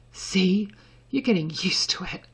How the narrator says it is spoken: Draco panted

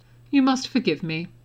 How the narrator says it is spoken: Dumbledore said dryly

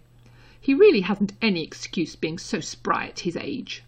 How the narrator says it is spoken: she added bitterly

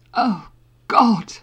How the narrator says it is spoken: Harry gasped

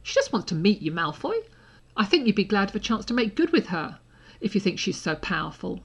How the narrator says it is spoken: Harry said indignantly

